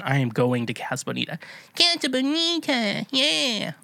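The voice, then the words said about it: Cartoon character voice impression. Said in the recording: “That's my Cartman impression, for those of you who don't know who Cartman is. That is my Eric Cartman impression.”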